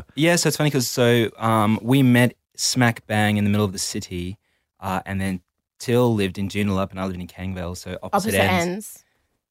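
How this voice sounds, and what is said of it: South African accent. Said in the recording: “So you've got an English accent? ... I'm actually South African. ... Well, you got an accent.”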